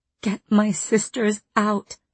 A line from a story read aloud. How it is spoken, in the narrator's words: I begged Rhys through the silent bond